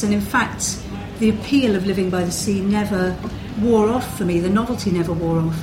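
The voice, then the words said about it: English Midlands accent. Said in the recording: “some people will perhaps have recognised from my accent that I come from the Midlands”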